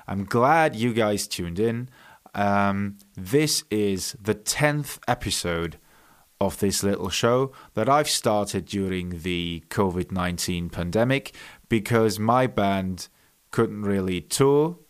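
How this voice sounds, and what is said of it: Funny Welsh-Bavarian mixed accent. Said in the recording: “I am half Welsh and half Bavarian. That is where the funny accent comes from”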